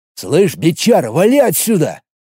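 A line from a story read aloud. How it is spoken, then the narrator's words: Growled. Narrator (Russian): прорычал он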